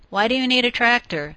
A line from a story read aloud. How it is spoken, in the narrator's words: Billy sighed